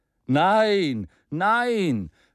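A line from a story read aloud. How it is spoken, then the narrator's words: Many voices calling. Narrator (German): rief man von allen Seiten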